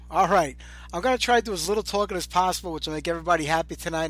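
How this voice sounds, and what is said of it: Congested, sore-throated voice. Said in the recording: “I've been sick all week. I still have a sore throat. I'm a little congested”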